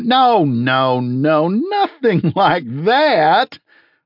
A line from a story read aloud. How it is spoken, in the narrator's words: laughed Sunday